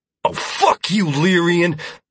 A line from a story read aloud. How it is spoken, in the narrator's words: Mazder spat